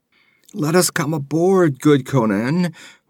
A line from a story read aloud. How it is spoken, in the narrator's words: whined a red-sashed Zamorian, glancing fearfully over his shoulder